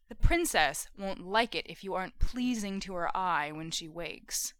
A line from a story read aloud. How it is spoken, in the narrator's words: Jensen said softly